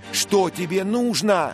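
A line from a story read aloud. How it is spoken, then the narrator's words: Shouting male voice. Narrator (Russian): крикнул Дик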